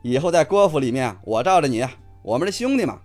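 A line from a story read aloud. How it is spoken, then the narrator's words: Laughing, mimicking voice. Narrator (Chinese): 方杰学着太阳的口吻笑道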